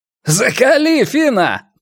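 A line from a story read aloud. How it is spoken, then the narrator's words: Shouted. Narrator (Russian): крикнул светловолосый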